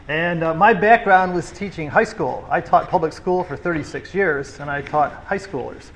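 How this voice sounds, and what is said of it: Foreign accent, talks fairly fast. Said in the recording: “I guess as you say, I have an accent ... my general speed is a little bit faster than a lot”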